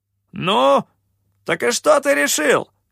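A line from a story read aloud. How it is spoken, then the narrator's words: Shout, captain. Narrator (Russian): выкрикнул капитан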